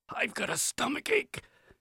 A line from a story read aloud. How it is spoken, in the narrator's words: he whispered to me